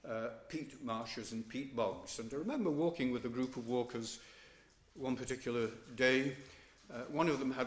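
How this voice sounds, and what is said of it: Yorkshire English accent. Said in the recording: “I don't know from my accent, possibly still... I am a Yorkshireman”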